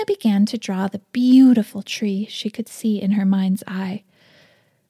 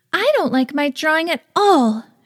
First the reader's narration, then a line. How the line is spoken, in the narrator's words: said in a strong tone